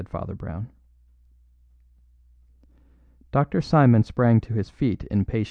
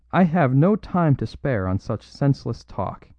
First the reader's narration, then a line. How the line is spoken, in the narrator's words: he cried angrily